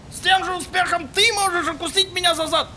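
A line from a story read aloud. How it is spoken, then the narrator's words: Taxi driver shouting. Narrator (Russian): крикнул ему таксист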